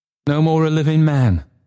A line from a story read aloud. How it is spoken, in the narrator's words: cried Trotty